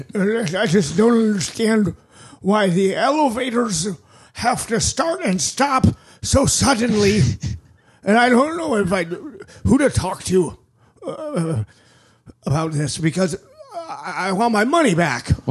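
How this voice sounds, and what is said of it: Complaining old man voice. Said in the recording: “you sound like my granddad ... Uncanny.”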